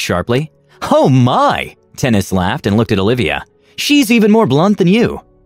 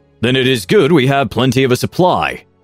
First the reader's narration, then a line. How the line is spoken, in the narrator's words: he snapped in anger